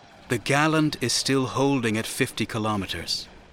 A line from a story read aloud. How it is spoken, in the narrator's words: Shatak said in a conciliatory tone